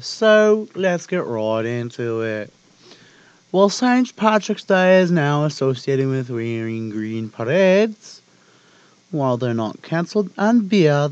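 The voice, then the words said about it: Speaks in a put-on accent. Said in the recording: “I'm speaking in another accent”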